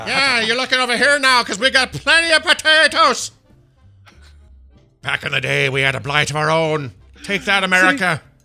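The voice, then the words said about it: Angry yelling put-on Irish accent. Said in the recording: “your Irish accent can absolutely be the yelling little Irish guy ... he's all pissed off and freaking out”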